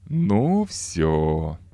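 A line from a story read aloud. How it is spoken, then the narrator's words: Satisfied drawl. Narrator (Russian): довольно протянул Пьер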